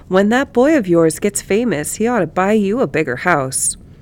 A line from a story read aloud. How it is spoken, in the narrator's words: called out